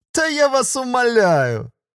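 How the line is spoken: Loud laughter. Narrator (Russian): Тетя Мира громко рассмеялась

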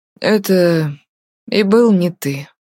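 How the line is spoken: Tired voice. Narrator (Russian): уставшим голосом проговорил Артур

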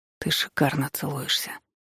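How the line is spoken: Hoarse rasp. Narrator (Russian): прохрипел я

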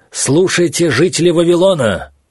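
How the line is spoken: Shout with full strength. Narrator (Russian): что из сил закричал Даниил

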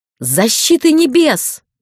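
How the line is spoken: Wailing. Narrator (Russian): завопила

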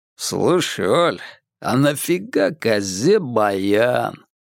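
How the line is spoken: Confiding drawl. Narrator (Russian): доверительно протянул он

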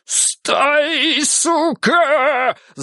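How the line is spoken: Yelling in trembling voice. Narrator (Russian): заорал вибрирующим голосом Елисеев

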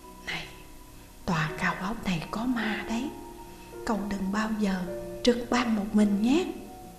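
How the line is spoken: Fearful whisper. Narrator (Vietnamese): Sở Anh ... giống như là sợ làm kinh động đến cái gì đó, ghé mặt lại nói khẽ

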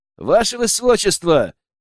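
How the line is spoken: Loud young man. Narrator (Russian): громко произнес парень

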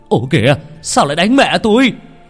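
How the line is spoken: Breathless shout. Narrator (Vietnamese): Ông Thành vừa chạy tới liền la lên

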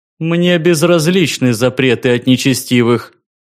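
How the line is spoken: Proud, louder voice. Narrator (Russian): гордо ответил на это Миш еще более громким голосом

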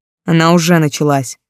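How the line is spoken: Growled. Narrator (Russian): рыкнул мой муж

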